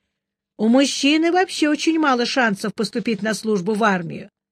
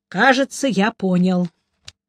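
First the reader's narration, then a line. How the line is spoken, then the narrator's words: Sigh. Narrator (Russian): наконец вздохнул он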